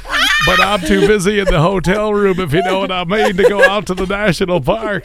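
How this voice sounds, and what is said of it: Impression of Bill. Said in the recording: “Do you do a Bill impression?”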